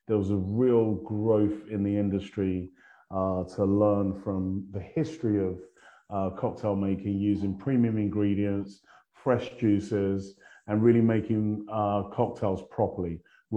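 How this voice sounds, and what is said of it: London English accent. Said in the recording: “my accent. I'm not from around these parts. I started off in sunny London”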